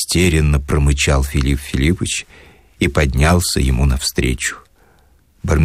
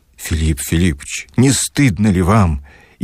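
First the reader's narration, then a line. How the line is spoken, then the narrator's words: Sincere fervent exclamation. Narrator (Russian): искренне воскликнул пламенный Барменталь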